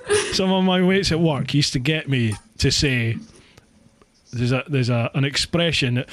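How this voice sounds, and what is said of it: Scottish accent with rolled r's. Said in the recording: “Oh, it's your accent. ... It's just the way I speak. ... being Scottish we roll our r's you know you, you you roll the r's when you speak”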